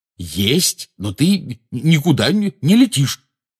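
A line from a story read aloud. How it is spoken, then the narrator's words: Angry. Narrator (Russian): сердито заявил Рон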